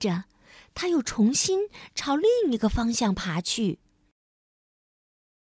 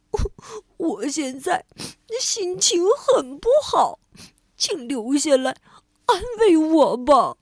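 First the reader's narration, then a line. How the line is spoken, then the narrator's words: Sobbing. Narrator (Chinese): 蜗牛哭哭啼啼地说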